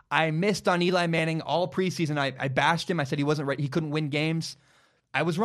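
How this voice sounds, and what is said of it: Usual voice. Nothing is said of it.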